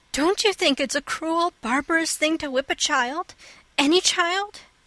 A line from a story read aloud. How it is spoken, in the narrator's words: exclaimed Anne, her face flushing with earnestness